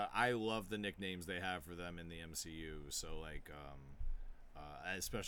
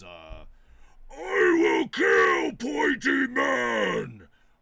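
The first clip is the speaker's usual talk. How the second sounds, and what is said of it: Loud yelling Hulk impression. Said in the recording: “I will try to cup my mouth. It's hard to do a Hulk impression without overloading the mic ... When he yells”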